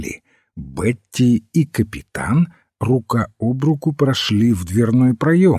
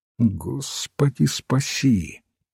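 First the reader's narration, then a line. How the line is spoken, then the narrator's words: Mutter. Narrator (Russian): пробормотал отец Браун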